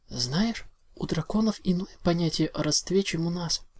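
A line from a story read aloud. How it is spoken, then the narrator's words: Quiet. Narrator (Russian): тихо сказала Твайлет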